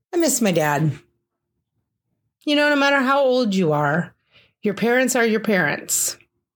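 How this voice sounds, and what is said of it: Choked-up, emotional voice. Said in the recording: “getting choked up.”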